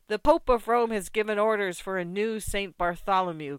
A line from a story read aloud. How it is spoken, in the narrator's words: cried others